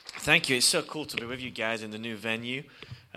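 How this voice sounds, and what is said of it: English accent. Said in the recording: “we come from England, as you can probably tell by my accent”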